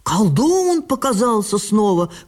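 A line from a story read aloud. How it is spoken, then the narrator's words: Mothers shouting. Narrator (Russian): кричали матери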